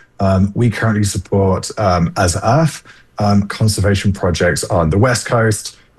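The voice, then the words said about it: Non-American sounding accent. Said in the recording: “my my accent is a little deceptive, but this is 100% taking place in the United States”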